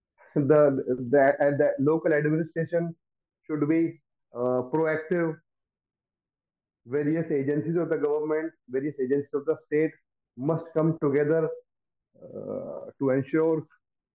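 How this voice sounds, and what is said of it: Voice in poor shape. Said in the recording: “my voice is in a very poor shape, so unable to speak much”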